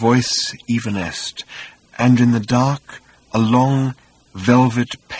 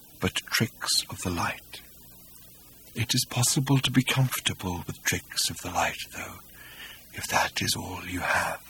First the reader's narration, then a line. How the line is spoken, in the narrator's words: said Hakdar faintly